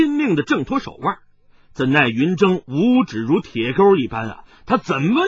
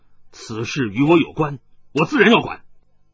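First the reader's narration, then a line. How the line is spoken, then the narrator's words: Angry. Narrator (Chinese): 云筝怒道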